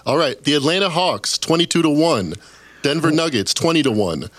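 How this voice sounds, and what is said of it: Exaggerated deep announcer voice. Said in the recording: “He's going to give us the deep voice rundown.”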